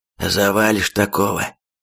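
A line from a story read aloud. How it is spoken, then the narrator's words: Hoarse reply. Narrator (Russian): отчего-то сипло ответил Рейдер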